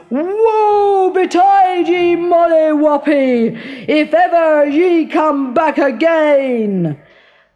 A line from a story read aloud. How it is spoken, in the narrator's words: he cried out after her in a dreadful voice